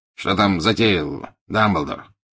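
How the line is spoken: Curt inquiry. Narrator (Russian): отрывисто поинтересовался Скримджер

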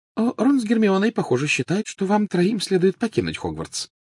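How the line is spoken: Light, casual tone. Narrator (Russian): начала она легким и непринужденным тоном

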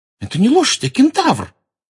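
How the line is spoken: Indignant exclamation. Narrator (Russian): возмущенно воскликнула Лаванда

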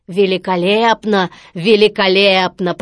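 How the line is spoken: Deep booming voice. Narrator (Russian): пробасил Стромболи

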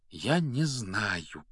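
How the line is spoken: Quiet. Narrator (Russian): тихо произнес Гарри

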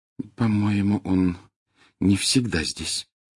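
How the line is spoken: Very quiet. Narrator (Russian): очень тихо сказала Гермиона

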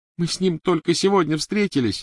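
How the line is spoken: Sobbing. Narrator (Russian): рыдала Гермиона

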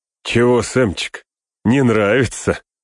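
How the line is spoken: Mocking chuckle. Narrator (Russian): хохотнул он

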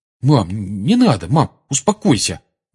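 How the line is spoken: Mumbling. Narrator (Russian): бормотал он

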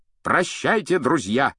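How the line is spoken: Shouting. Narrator (Russian): крикнул рыцарь

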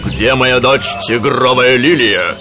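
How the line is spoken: Rough question. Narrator (Russian): грубо спросил

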